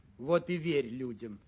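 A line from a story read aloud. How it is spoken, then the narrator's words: Grumbling. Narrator (Russian): ворчала гусеница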